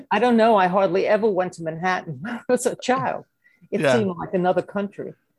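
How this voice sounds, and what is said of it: Brooklyn accent. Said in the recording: “You may have noticed from my accent ... they said it's getting more pronounced ... I can't dump this Brooklyn accent”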